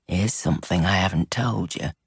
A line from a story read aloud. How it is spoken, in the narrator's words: he murmured against her lips